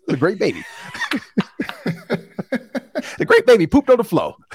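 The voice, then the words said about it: Kevin Hart impression. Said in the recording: “In my Kevin Hart voice,”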